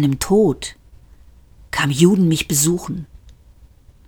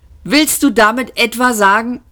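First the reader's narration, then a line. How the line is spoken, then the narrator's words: Laughing. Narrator (German): lachte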